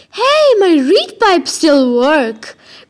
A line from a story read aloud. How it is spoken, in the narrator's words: Grover cried